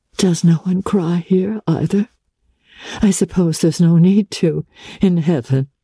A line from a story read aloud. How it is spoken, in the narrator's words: she said, with a laugh